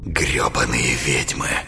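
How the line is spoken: Sorrowful whisper. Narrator (Russian): Горестно прошептал Рыбаков

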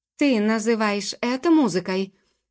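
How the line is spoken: Hot-tempered scornful exclamation. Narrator (Russian): Вспыльчиво и презрительно воскликнул принц

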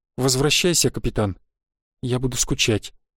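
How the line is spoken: Quiet. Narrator (Russian): тихо сказала она

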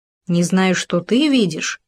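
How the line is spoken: Grumbling. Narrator (Russian): пробурчал суслик

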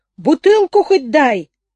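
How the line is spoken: Gloomy, angry shout. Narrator (Russian): враз помрачнел и стал прежним, злым, загнанным в угол жизни двуногим, со злостью выкрикнул

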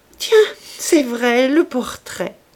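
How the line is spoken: Laughing. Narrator (French): dit-elle en riant

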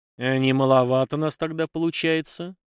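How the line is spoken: Gloomy question. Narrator (Russian): мрачно поинтересовался Степан

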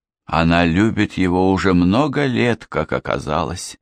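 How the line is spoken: Sad. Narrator (Russian): грустно ответила Эмили

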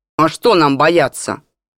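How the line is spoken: Eerie howling drone in ear. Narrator (Russian): Жутким подвывающим голосом прогудел он на ухо Иржику

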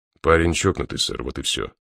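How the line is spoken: Calm reply. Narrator (Russian): спокойно ответил Мастерс

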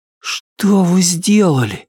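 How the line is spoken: Breathed out. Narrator (Russian): выдохнул он

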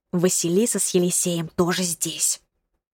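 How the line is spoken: Secretive whisper in ear. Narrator (Russian): шепнула она мне на ухо, стараясь, чтобы Демьян ничего не услышал

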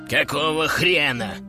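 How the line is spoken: Angry hiss. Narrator (Russian): прошипел он

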